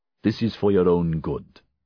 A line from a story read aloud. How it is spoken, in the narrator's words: Navot said